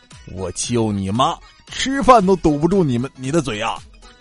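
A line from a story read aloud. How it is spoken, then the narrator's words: Father's angry roar. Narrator (Chinese): 他老爸 立即怒吼一声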